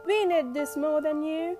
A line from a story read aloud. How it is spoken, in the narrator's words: chuckled Nosy